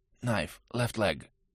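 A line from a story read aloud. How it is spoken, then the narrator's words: Quiet. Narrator (Russian): негромко произнес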